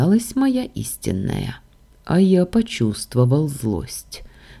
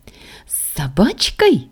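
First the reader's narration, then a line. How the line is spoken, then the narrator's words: Delighted squeal. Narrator (Russian): восторженно взвизгнула Саша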